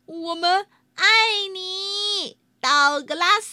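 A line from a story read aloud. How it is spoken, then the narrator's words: Happy laughing. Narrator (Chinese): 道格拉斯高兴的笑着说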